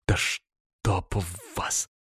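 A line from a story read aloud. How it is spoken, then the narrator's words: Exhausted exhale. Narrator (Russian): вымученно выдохнул я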